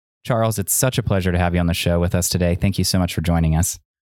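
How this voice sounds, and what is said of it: Soothing radio voice. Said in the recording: “you've got this little radio voice down. You sound very soothing.”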